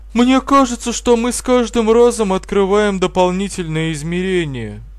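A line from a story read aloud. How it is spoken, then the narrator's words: Sighing. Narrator (Russian): вздохнула Жюльетта Рамирес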